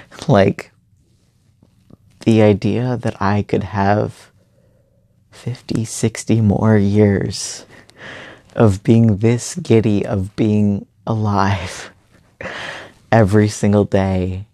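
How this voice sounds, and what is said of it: Tearful, crying voice. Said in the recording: “I'm crying right now. I don't know if you can hear it in my voice, but I am happy tears crying”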